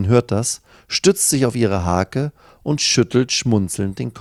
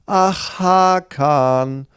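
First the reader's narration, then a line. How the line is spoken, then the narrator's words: Calling across. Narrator (German): ruft sie rüber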